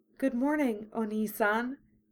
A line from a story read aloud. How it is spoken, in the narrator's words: Yukina said softly